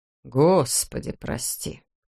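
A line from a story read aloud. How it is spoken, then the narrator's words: Muttered under breath. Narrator (Russian): полголоса пробормотал полисмен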